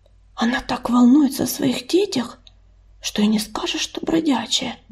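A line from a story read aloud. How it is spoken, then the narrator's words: Whispering through mesh. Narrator (Russian): прошептала она Коди через разделявшую их сетку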